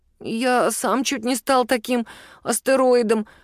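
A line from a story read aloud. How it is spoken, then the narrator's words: Grumbling. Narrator (Russian): пробурчал Мишун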